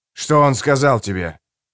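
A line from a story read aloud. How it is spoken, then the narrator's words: Sharp question. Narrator (Russian): резко спросил я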